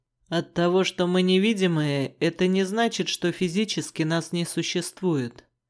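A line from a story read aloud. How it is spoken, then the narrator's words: Surprisingly calm explanation. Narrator (Russian): пояснил черный на удивление спокойным голосом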